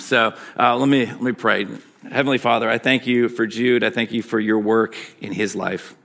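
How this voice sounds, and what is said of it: Michigan accent. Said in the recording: “My Michigan accent, people don't seem to love.”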